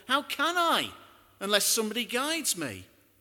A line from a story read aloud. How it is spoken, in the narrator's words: the Ethiopian shouts back